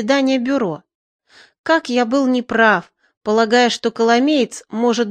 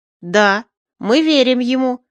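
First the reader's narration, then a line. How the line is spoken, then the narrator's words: Loud shout over grumbling. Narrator (Russian): заглушая ворчание Тиктора, крикнул Никита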